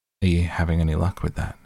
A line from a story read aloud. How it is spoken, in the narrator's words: He asked in an offhand tone